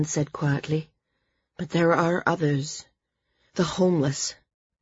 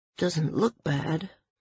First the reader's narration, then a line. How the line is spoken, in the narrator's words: murmured Evan